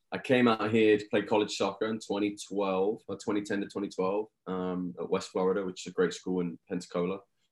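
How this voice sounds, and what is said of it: English accent. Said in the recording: “The accent is a little bit different. So I'm from England.”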